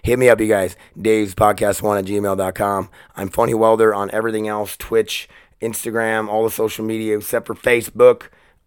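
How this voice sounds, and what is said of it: Scratchy voice. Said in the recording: “my voice being scratchy”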